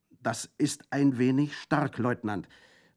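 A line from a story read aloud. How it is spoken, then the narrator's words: Called out, panting. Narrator (German): rief keuchend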